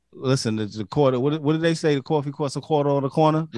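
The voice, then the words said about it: New York accent. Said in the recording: “this is my New York accent, okay? It's my New York accent.”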